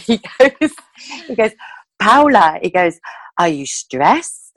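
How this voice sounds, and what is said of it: Put-on Spanish accent. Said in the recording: “sorry, this is my Spanish accent here”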